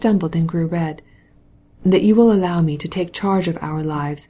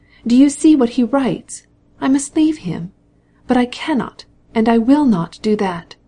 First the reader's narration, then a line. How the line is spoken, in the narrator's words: she cried